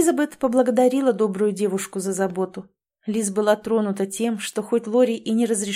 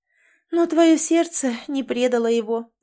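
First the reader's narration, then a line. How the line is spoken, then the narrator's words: Sighing. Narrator (Russian): вздохнула Тамрета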